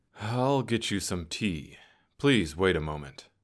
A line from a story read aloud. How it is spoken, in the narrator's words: The conductor let out a deep sigh and said